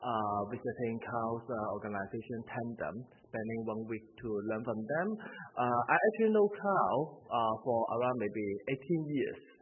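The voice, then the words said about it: Hong Kong English accent. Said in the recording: “As you can hear from my accent, I'm not from New Zealand, not a Kiwi. I come from Hong Kong.”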